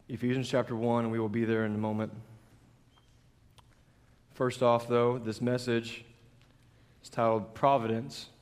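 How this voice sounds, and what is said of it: Strained, worn-out voice. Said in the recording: “as you can tell, my voice is not what it was before we left. So we got some warm tea with some honey in it.”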